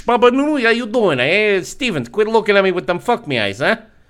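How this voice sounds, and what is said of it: Exaggerated put-on accent. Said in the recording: “accent king title”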